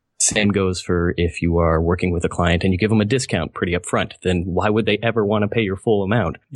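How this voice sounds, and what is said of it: Non-American accent. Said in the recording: “your accent makes me really miss Curtis McHale ... I keep getting told I have an accent ... Probably by Americans”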